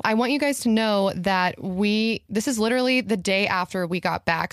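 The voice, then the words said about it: Scratchy, tired voice. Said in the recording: “we're pretty tired. If my voice is scratchy, I'm sorry. I was just screaming all night”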